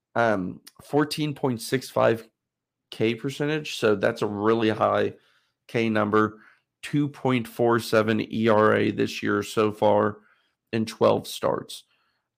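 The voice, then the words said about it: Strained, fading voice. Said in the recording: “my voice is kind of going out today”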